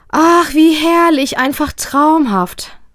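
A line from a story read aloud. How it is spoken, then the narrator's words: Happy sigh. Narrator (German): seufzt Mama beglückt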